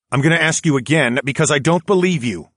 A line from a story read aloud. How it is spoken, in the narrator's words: responded, not to shout